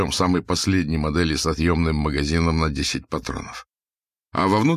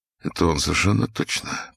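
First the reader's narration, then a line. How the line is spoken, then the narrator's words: Muttering to himself. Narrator (Russian): пробормотал он про себя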